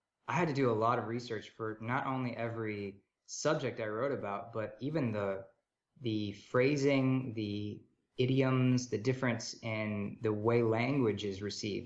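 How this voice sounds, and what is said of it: American accent. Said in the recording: “as you can tell from my voice, I'm American.”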